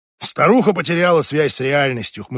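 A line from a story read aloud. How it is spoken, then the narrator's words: Scoffing snort. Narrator (Russian): хмыкнул Ник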